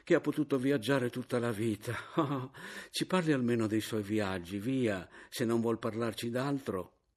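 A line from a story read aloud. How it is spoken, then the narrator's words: Sighing exclamation. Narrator (Italian): esclamò la caporale sospirando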